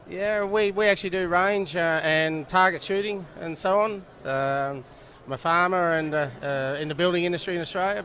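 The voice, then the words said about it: Australian accent. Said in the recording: “love the accent ... Australia”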